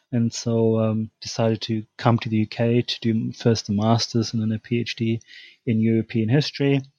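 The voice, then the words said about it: German accent. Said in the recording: “As you can tell from my accent, I'm originally from Germany.”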